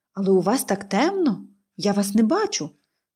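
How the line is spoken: Exclamation. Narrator (Ukrainian): вигукнула

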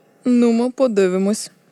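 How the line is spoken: Grumbled, big man. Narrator (Ukrainian): буркнув лисий здоровань

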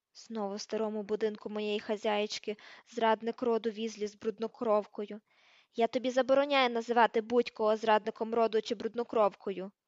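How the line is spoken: Growled. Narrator (Ukrainian): прогарчав Гаррі

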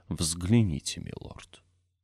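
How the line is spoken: Frightened whisper. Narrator (Russian): Архиепископ повторив испуганным шепотом

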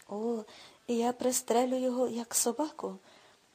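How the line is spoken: Theatrical exclamation. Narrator (Ukrainian): театрально вигукнув Віллі

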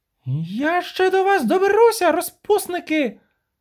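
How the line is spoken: Shout. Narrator (Ukrainian): крикнула Веспуля, відновлюючи рівновагу

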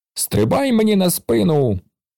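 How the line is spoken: Exclaimed. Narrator (Ukrainian): вигукнув він

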